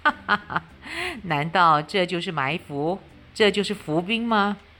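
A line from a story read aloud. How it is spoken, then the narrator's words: Laughing loudly. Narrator (Chinese): 夏侯惇哈哈大笑说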